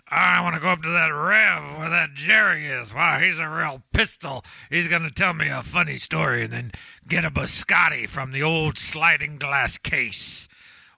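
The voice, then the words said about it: Pirate-like character voice. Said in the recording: “do you sound like a pirate... I feel like a pirate.”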